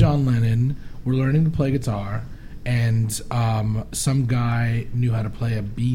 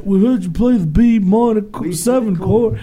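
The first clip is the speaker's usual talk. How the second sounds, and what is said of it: Weak uncommitted English accent. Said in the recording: “Never do an English accent. ... I know it's terrible. ... You didn't commit to it.”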